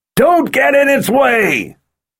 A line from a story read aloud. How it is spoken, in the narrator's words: he yelled at both moored Sith